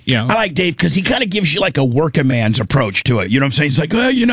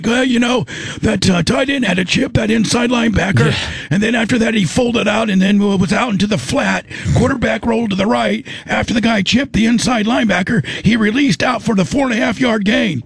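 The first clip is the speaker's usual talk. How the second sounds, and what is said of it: Impression of broadcaster Dave Moore. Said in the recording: “That might be your best impersonation.”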